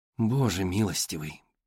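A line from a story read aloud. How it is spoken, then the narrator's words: Muttering. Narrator (Russian): пробормотала Джейн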